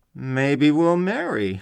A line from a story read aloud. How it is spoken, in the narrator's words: I purred cannily